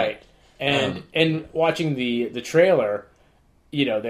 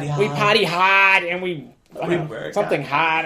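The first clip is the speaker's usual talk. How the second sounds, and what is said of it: Exaggerated Boston accent. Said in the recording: “they're totally amping up the bogus Boston accent.”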